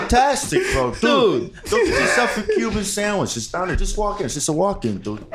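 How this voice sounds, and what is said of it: Imitates another person's voice. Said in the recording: “Can you do an impression of him real quick?”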